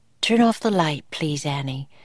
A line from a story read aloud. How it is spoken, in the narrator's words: she said softly